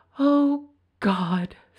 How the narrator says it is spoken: sighed the tinker's wife

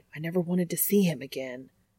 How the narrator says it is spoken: someone hissing

